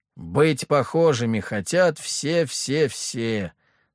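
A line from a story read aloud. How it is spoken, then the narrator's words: Groaning, cursing soldiers. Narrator (Russian): Со стонами и матами отдельных личностей ответили бойцы смешанного подразделения 1У и Ж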